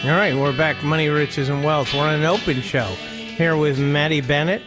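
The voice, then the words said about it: Pittsburgh accent. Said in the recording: “That's my Pittsburgh accent, but it's neutral.”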